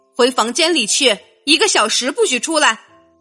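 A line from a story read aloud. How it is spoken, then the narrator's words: Stern mother. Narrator (Chinese): 妈妈的声音严厉起来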